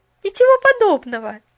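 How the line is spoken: Cheerful objection. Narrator (Russian): весело возразила Поллианна

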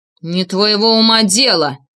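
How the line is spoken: Sudden loud angry shout. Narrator (Russian): неожиданно громко и зло крикнул Тарасов

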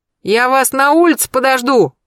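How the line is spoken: Quick shout. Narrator (Russian): успел крикнуть страдалец

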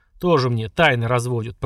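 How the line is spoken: Grumbling orc. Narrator (Russian): пробурчал орк

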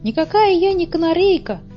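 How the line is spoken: Squeaky. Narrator (Russian): пропищала одна

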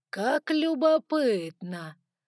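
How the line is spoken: Drawled with pleasure. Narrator (Russian): протянул Саргон, с видимым удовольствием

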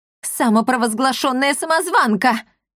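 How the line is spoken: Wailing yell, woman. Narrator (Russian): завопила супруга мэра

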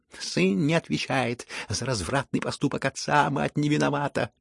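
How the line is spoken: Passionate squeal. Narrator (Russian): с жаром провизжал Ипполит

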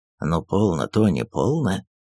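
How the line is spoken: Whispering. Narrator (Russian): шепнул ей

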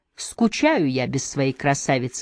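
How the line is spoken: Plain. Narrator (Russian): сказала Эмма

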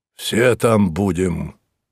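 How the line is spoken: Sudden hoarse proclamation. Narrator (Russian): провозгласил вдруг Мозес хрипло

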